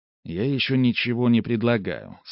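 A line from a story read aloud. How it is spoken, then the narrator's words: Calm. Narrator (Russian): спокойно сказал я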